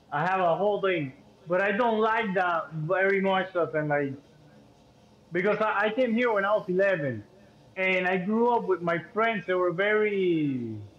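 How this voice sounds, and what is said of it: Cuban accent. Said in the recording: “I know I'm Cuban as hell. I have an accent”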